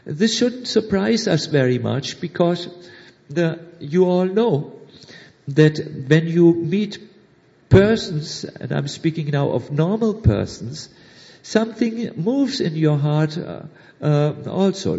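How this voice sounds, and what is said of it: German accent. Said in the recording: “my sweet German accent.”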